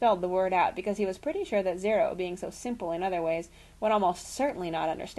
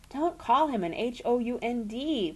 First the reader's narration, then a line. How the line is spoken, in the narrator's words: pleaded Jack